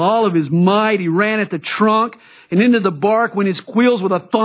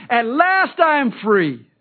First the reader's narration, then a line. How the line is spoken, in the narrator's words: Willie exclaimed